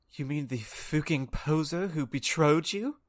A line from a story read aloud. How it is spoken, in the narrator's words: Vampire snarled with anger in his sexy voice